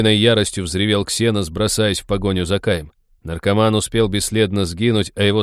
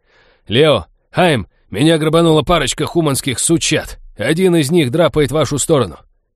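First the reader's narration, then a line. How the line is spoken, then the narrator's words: Yelling at full voice. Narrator (Russian): во всю глотку заорал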